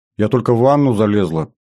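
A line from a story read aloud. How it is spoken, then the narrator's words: Slightly bewildered. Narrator (Russian): зазвучала она чуть растерянно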